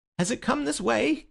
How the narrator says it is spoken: gasped the keeper

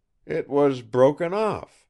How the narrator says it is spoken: exclaimed Brent, making a sad effort to recollect what had happened

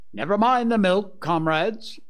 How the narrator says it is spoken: cried Napoleon

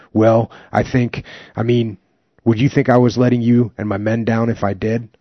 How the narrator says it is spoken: I stammered

